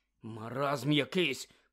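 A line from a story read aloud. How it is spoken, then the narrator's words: Mutter. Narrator (Ukrainian): пробурмотів Рон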